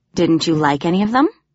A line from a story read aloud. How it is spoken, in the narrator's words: he asked